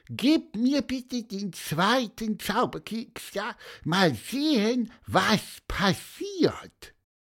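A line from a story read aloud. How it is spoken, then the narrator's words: Squeaked. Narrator (German): piepste Pieper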